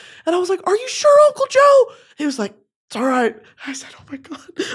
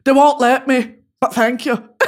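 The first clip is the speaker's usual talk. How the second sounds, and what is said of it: Put-on Irish accent. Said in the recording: “However the fuck the Irish accent sounds”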